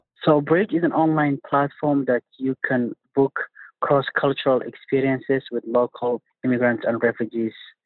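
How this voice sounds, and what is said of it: Non-native English accent. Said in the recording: “As you might have guessed from the accent, he is not native to Pennsylvania.”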